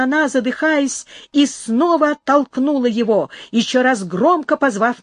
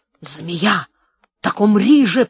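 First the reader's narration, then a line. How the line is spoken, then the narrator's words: Hiss. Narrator (Russian): прошипел Карлос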